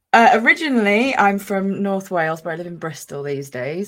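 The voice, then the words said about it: Mixed Welsh and generic English accent. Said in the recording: “I've got a bit of a mixed accent, but I am Welsh... I started to get a bit of a Welsh twang... I just sound like generic English person”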